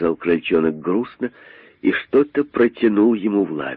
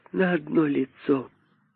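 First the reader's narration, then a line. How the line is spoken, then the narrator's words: Sad young voice. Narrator (Russian): сказал крольчонок грустно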